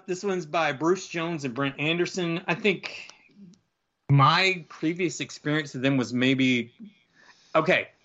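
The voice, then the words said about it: Southern US accent. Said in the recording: “You got my southern accent to contend with”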